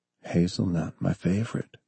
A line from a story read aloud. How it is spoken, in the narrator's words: he whispered